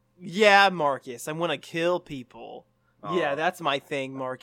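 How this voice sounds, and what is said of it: Unconvincing sarcastic delivery. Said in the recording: “that was sarcasm, it was not very convincing”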